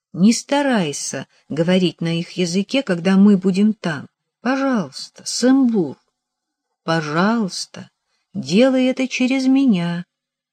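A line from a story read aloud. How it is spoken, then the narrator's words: Soft pleading. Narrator (Russian): Я мягко попросила Сэмбура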